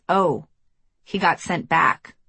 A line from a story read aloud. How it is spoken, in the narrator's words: another player muttered, confidentially